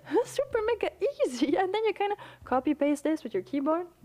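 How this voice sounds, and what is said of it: French-accented English. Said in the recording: “I'm saying it with my French accent”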